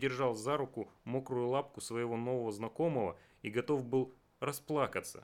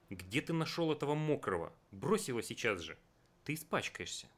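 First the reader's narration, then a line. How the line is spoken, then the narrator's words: Stern. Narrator (Russian): мама сказала строго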